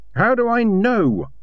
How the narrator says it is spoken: she shouted

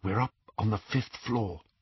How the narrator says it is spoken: he whispered

